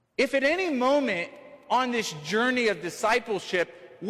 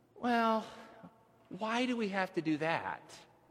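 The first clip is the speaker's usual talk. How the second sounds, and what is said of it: Whiny voice. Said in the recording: “I'm not going to impersonate a teenage girl, but I'm gonna be a little whiny here”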